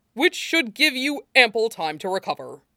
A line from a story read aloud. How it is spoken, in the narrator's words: Toshinori said firmly, undaunted